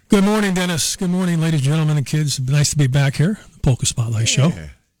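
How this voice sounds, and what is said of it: Hoarse voice from laryngitis. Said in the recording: “pardon my voice. I got a little laryngitis”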